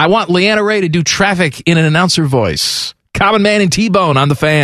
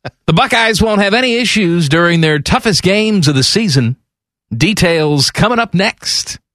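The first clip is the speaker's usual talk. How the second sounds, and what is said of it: Exaggerated radio announcer voice. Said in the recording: “I'm going to do it in my announcer voice ... this is also the Mike DeWine voice”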